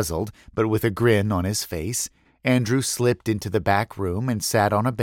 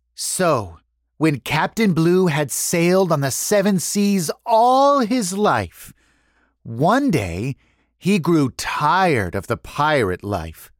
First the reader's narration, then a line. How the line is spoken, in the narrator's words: said, pausing dramatically